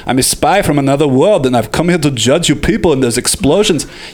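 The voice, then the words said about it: Imitates another person's voice. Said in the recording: “Arnold accent”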